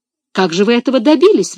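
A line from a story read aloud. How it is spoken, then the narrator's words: Exclaimed. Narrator (Russian): воскликнула Мари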